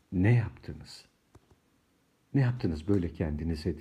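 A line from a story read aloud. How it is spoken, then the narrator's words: Muttered. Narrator (Turkish): diye mırıldandı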